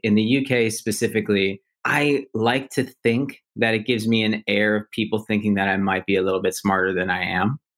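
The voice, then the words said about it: American accent, Silicon Valley-sounding. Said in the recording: “having an American accent ... people will say that I sound very Silicon Valley, San Francisco-esque”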